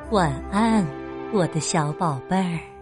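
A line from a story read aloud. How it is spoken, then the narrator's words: Gentle. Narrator (Chinese): 温柔地说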